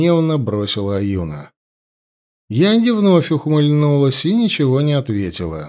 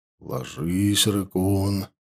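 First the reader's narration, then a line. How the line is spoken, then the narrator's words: Quiet command. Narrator (Russian): тихо приказал Ауранг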